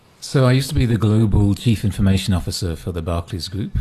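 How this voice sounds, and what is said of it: Foreign, non-South African accent. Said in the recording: “You're obviously not originally from South Africa, judging by your accent”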